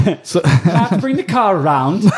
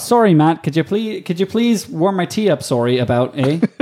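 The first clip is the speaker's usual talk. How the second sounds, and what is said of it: Put-on Canadian accent. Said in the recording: “she has a Canadian accent. Do it in the Canadian accent.”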